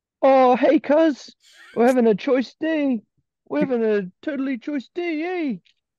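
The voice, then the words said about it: Put-on New Zealand cartoon-style voice. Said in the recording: “kind of a blend of a New Zealand accent. I was trying to do a New Zealand accent the whole time ... It's like English a again. Voice from Morty from Rick and Morty, but with a British New Zealand accent”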